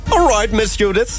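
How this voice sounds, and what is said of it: Put-on British accent. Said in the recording (Dutch): “zo'n Brits accent ... British.”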